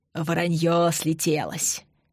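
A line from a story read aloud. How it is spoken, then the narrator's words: Breathless wheeze. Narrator (Russian): просипел задыхающийся Юрий Яковлевич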